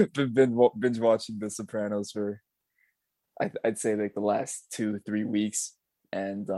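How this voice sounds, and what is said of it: Usual voice. Nothing is said of it.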